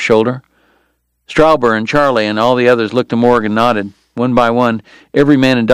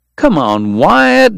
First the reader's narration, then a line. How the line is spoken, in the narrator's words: Dog pleaded